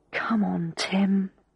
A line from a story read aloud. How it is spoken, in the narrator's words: said under my breath